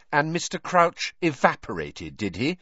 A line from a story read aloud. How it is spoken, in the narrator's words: said Hermione coldly